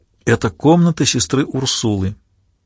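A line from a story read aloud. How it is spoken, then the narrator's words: Quiet. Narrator (Russian): тихо произнесла она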